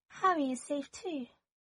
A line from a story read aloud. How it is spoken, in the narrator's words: Draco whispered, and he was trembling